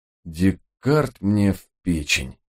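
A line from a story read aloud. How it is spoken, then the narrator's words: Glum admission. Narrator (Russian): уныло признал я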